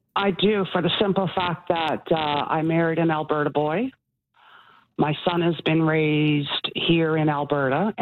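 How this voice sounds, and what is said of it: Slight Newfoundland accent. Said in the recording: “You haven't quite got rid of the accent. ... I still have a little bit of an accent”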